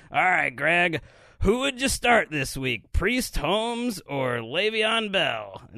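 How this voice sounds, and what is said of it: Bad Chris Collinsworth impression. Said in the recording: “worst Chris Collinsworth impression ... That sounded like Fat Albert doing an impression of Chris Collinsworth. that was terrible.”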